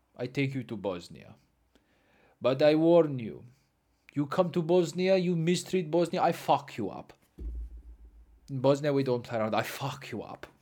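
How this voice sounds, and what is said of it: Put-on Bosnian accent. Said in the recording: “I don't uh, know what the Bosnian accent is, and I don't know if that is.”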